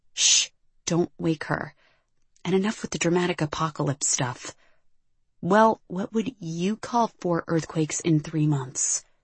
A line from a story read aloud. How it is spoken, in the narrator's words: Shannon asked, her voice as close to a whisper as it could get, which was not very